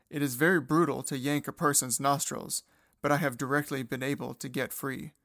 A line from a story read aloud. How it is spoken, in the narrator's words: Seido groans with pain and says